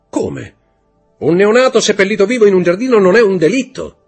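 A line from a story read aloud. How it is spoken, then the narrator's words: Shouted. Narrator (Italian): gridò Montecristo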